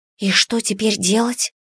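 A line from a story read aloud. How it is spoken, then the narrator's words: Whispered question. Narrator (Russian): спросила я шепотом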